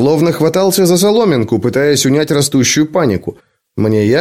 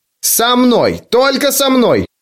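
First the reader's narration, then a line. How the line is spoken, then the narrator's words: Shouted. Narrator (Russian): выкрикнул он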